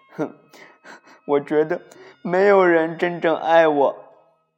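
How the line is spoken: Crying. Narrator (Chinese): 玻璃哭了起来

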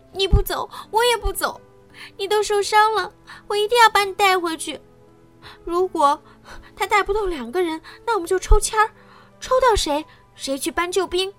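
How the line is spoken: Anxious, crying. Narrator (Chinese): 他急得哭起来

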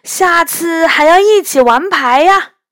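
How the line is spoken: Shouting through cupped hands. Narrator (Chinese): 元宝突然把双手弯成喇叭状，大声说

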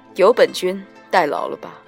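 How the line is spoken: Cool, detached. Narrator (Chinese): 一个清冷的声音却突然淡淡的响起

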